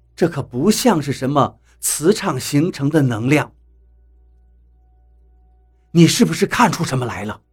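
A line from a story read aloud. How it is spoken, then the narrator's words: Softly. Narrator (Chinese): 何洛……轻声地说道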